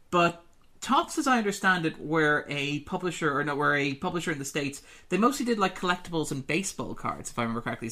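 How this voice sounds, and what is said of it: Irish accent. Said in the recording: “I'm Irish, as my accent probably gives away”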